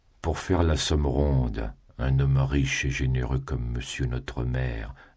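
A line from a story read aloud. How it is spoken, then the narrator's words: Peasant's coaxing voice. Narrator (French): dit le paysan d'une voix câline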